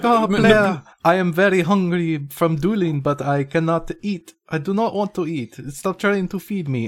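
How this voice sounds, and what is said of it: Mock French accent. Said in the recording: “he has a French accent”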